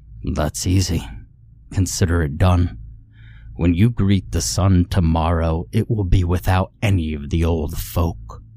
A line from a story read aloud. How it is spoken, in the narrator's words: Black Bart said in that same strained, croaking tone